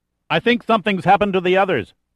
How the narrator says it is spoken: shouted in his ear

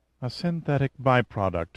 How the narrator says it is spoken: Eva murmured thoughtfully

